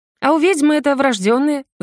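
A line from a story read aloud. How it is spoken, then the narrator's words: Ringing laugh. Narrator (Russian): звонко рассмеялась я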